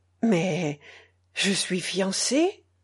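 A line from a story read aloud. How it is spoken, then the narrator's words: Weak voice. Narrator (French): ajouta-t-il d'une voix faible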